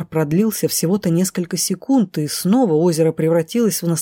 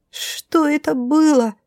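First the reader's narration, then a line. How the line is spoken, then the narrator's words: Frightened teeth-chattering squeak. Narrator (Russian): Стуча зубами уже больше от страха, чем от холода, пискнула кудряшка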